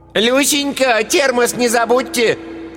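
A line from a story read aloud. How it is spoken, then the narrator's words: Receding shout. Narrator (Russian): крикнула удаляющаяся Ираида Павловна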